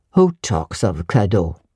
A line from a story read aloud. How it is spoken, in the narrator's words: said he gruffly